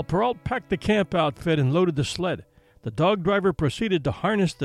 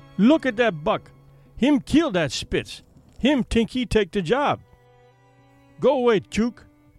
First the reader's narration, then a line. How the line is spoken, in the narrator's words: he cried